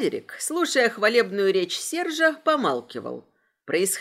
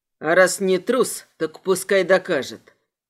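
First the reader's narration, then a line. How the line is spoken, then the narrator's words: Grumbling. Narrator (Russian): пробурчал Айвор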